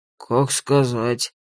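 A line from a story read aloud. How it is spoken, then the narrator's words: Gruff mutter. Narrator (Russian): буркнул Дун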